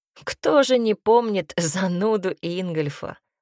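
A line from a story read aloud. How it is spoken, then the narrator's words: Laughing. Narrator (Russian): рассмеялся ковбой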